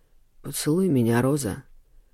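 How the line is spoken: Hoarse half-pleading demand. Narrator (Russian): Хриплым голосом то ли попросил, то ли потребовал

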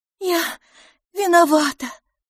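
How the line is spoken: Trembling voice. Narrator (Russian): дрожащим голосом ответила мисс Лафос

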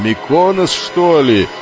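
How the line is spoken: Shouting over storm. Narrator (Russian): пытаясь перекрыть рев бури, прокричал и Фикл

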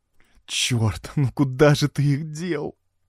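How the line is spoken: Moaning. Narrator (Russian): простонала она

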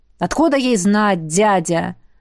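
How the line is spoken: Irritated snap. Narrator (Russian): раздраженно бросил Артур

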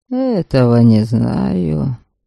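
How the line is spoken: Mumbling. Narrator (Russian): бормотал Ольгемонт

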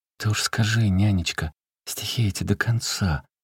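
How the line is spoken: Gentle asking. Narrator (Russian): Сестра ласково спросила ее

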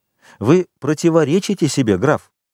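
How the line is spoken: Exclaimed. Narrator (Russian): воскликнул Альбер

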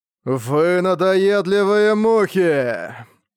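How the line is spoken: Powerful, sepulchral voice. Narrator (Russian): проговорил Люцифер мощным загробным голосом

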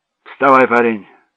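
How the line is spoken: Curt, clipped. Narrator (Russian): сказала она отрывисто

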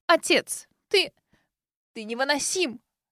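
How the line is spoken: Breaking into sobs. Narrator (Russian): Не выдержала и разрыдалась миссис Джоан

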